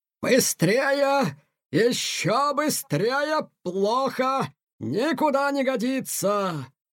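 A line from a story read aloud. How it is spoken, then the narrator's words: Angry shouting. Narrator (Russian): кричал на Тихона полковник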